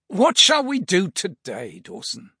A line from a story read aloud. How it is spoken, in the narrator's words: Basil asked with a sigh